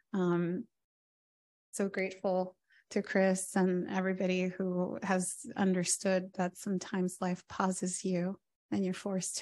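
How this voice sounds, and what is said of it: Strained, sick-sounding voice. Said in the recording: “I've been pretty sick with acute bronchitis... my voice is worse today than it's been for the past two days... you may hear some coughing”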